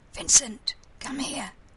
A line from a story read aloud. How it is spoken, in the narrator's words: Jamie in a stage whisper